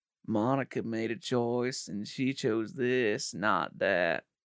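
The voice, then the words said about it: Imitates another person's voice, poorly. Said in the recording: “worst Bill Clinton impression ... That's the worst Monica. Bill Clinton impression I've ever had ... my Bill Clinton impression is normally really bad”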